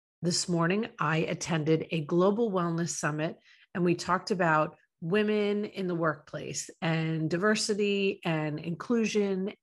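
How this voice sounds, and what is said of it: Hoarse, fading voice. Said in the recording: “I am losing my voice”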